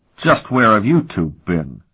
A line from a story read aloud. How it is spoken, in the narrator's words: Sparhawk demanded angrily